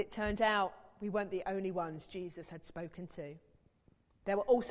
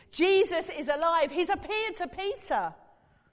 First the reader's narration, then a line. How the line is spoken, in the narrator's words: they all shouted